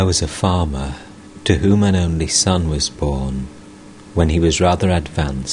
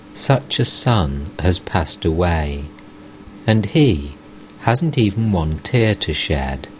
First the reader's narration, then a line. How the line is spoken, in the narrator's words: Sadly, the wife said